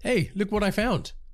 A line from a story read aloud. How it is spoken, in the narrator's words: I called out